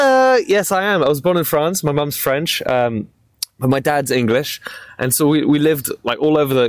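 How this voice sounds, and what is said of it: Usual voice. Nothing is said of it.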